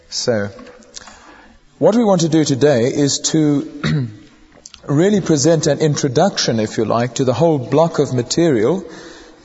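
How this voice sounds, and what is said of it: Squeaky, croaky voice from illness. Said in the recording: “squeaky voice ... the dreaded lurgy has struck yet again ... croak my way through the lecture today”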